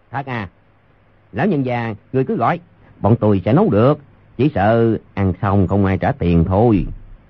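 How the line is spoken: Cold. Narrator (Vietnamese): Tiểu nhị lạnh lùng nói

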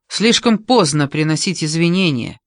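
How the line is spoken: Sharp, curt. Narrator (Russian): резко сказал он

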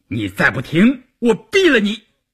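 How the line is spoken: Roaring. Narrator (Chinese): 关山林吼道

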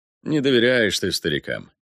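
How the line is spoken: Thoughtful. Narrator (Russian): задумчиво произнес Рудольф

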